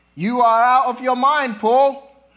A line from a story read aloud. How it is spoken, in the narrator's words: he shouted